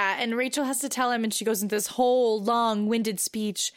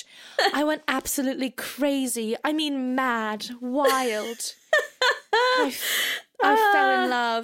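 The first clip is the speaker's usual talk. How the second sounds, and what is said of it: Put-on British accent. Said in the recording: “These British accents ... my accent is almost as good as Piper Perabo's”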